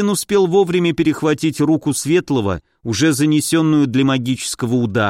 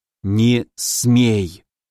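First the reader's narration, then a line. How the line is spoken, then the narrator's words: Forceful hiss. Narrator (Russian): Прошипел он с силой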